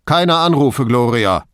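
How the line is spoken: Calling over shoulder. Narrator (German): rief er über die Schulter hinweg

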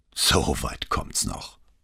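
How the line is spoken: Grumbling. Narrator (German): brummte der Maler

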